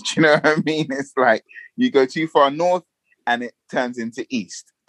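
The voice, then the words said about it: Fairly proper London accent. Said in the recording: “So you sound London to me. You could be from any part of London. ... I've been accused at times of having like a too proper of an accent”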